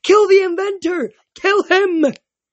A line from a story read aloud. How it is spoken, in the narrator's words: the spirit of Minos wailed